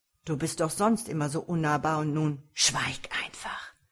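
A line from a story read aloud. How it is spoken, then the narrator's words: Snarling. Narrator (German): fauchte Veosvar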